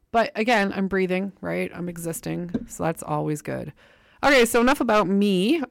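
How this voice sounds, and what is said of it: Congested voice with a sore throat. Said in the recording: “Now I have a cold. ... So sore throat, and I'm just feeling under the weather.”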